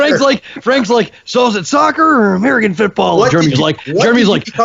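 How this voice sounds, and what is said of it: Usual voice. Nothing is said of it.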